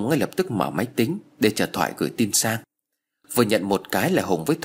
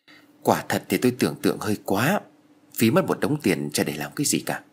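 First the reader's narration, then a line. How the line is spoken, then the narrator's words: Sighing. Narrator (Vietnamese): Thoại thở dài nói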